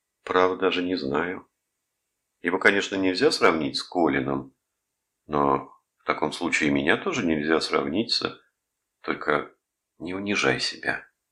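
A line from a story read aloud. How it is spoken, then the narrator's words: Gentle reproach. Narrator (Russian): мягко упрекнул ее Рудольф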